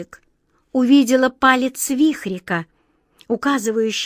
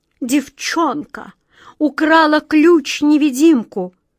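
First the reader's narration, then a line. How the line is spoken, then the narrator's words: Queen moaning. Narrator (Russian): простонала королева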